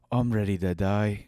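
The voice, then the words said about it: Put-on thick Irish-sounding accent. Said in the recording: “She actually had a thick Scottish accent. ... That's Irish. ... really Irish. ... that was really Irish.”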